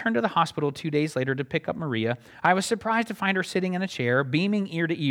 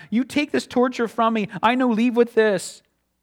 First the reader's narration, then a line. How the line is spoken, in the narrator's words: she cried